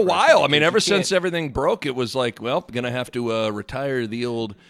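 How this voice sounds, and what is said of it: Usual voice. Nothing is said of it.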